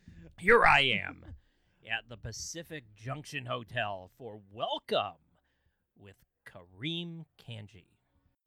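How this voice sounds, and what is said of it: Announcer-style radio voice. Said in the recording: “had your radio voice all of a sudden show up”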